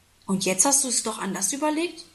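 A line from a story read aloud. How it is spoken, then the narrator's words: Plain question. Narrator (German): fragt Papa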